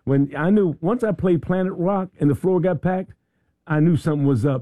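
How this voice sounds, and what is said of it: Hoarse, strained voice. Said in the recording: “You can hear I've lost my voice from jamming so hard last night.”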